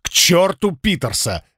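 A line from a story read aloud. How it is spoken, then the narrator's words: Impatient bark. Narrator (Russian): рявкнул я, окончательно утратив терпение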